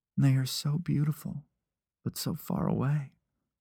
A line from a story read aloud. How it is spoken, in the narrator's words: she murmured, almost to herself